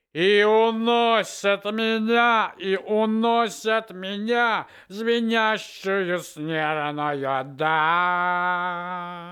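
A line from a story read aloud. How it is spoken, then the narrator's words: Thunderous singing. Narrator (Russian): громовым голосом поет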